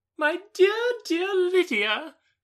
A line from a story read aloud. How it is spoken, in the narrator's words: she cried